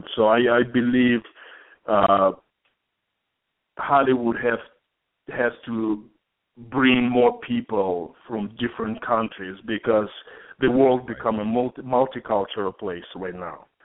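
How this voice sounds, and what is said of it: Speaks with a foreign accent. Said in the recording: “you can hear me talking right now, and I have an accent.”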